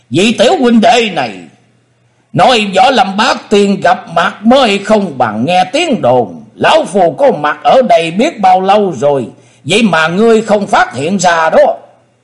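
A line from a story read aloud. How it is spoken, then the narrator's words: Laughing loudly. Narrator (Vietnamese): Thần Nhất Tý cười lớn nói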